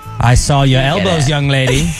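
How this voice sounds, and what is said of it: Old smug general's accent. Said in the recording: “Why are we doing this accent? ... what is that accent? ... That seems like an old smug guy. ... like an old Civil War general is interviewing.”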